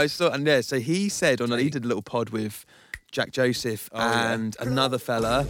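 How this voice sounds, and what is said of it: Usual voice. Nothing is said of it.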